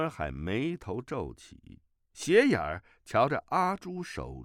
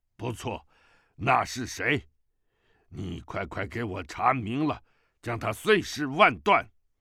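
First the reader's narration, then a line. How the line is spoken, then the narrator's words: Angry. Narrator (Chinese): 赫连铁树怒道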